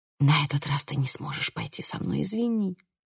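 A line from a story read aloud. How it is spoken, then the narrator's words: Whisper. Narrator (Russian): прошептала я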